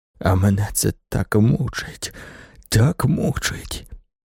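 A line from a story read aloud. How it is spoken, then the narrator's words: Moaning. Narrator (Ukrainian): простогнав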